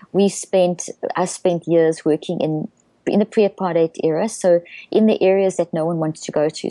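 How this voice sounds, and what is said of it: South African accent. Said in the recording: “I come out of South Africa, which you've probably guessed from my accent.”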